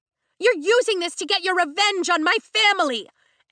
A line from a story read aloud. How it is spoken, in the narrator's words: Amber shouts at Zayden